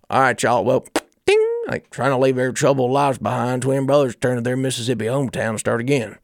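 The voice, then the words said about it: Put-on Southern accent. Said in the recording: “Why is there no accent that's like”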